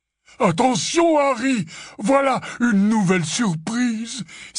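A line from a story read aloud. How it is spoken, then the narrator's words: Exclaiming. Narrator (French): s'écria Hagrid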